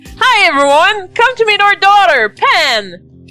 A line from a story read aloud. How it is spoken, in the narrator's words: He exclaims